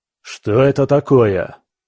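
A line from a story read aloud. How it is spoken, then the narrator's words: Harsh bark. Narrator (Russian): рявкнул лысый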